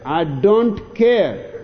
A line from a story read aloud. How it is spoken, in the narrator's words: snaps Arnie